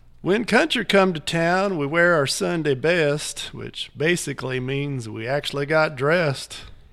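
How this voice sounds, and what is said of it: Put-on rural country accent. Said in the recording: “I try to do them in an accent ... I'm going to try my best with my accent here”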